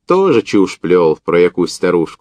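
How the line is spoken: Mocking and gloomy. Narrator (Russian): насмешливо-мрачно проговорил Парахонько

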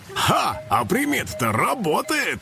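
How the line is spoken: Loud laughter. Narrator (Russian): расхохотался Карыч

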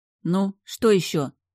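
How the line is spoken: Snapped. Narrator (Russian): огрызнулась я

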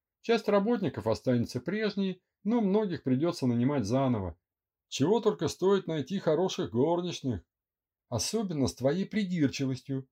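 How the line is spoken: Laughing, teasing. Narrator (Russian): смеясь, поддразнивала его она

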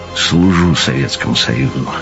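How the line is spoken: Gloomy muttered grunt. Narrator (Russian): мрачно подумал про себя Тарас, но вслух, разумеется, буркнул

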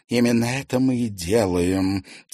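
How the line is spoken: Quiet whisper. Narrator (Russian): тихо прошептала Поветруля

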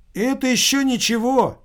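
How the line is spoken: Young man exclaiming nearby. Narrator (Russian): воскликнул молодой человек из-за соседнего стола

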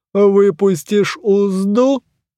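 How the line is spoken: Booming hum, closed mouth. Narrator (Russian): прогудела она, не раскрывая резного рта

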